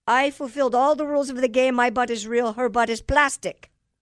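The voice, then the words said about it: Put-on Argentinian accent. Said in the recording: “was that an Argentinian accent you were affecting there for a second?”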